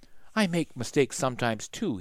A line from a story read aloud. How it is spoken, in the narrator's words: he said softly